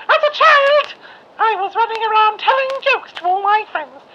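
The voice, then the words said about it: Childlike put-on voice. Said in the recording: “Your voice is quite deep for a child, sir. You might want to start again ... keep doing that voice”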